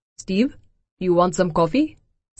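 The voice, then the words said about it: Hindi accent. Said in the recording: “A voice with a Hindi accent says”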